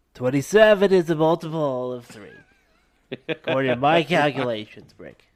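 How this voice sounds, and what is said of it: Nerdy geek character voice. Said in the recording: “geek voice”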